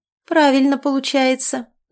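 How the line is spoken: Mocking. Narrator (Russian): насмешливо откликнулась гостья

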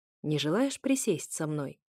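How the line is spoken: Quiet, unreadable tone. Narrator (Russian): спросил он снова тихо, тем самым нечитабельным тоном

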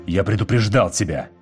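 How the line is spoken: Growling. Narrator (Russian): прорычал Вит

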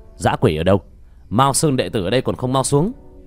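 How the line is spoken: Cold shout. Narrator (Vietnamese): Tiểu Thất quát lạnh

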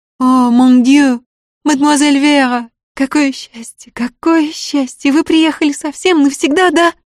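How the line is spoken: Child's sobbing, choked pleading. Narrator (Russian): детские горячие всхлипы, и сдавленные требования

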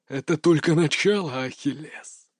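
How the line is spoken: Hiss. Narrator (Russian): Прошипел он

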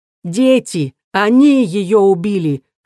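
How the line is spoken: Scream. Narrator (Russian): завопила я

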